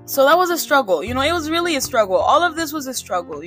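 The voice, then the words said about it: African accent in English. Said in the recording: “in Africa, we, you know, with all these other languages except for English, we pronounce vowels ... with my accent ... I have learned to love the way I sound and my accent”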